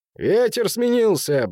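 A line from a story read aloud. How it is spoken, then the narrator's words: Cheerful shout. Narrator (Russian): бодро крикнул Хэнк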